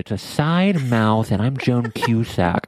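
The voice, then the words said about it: Imitates another person's voice, side-mouthed. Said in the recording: “I wish I could do a good impersonation. Just like the way she talks. What is her, aren't her S's ... it's kind of a side mouth ... You're doing very well.”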